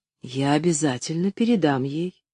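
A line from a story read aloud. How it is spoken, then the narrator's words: Quiet, very serious assurance. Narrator (Russian): тихо и очень серьезно заверила мисс Полли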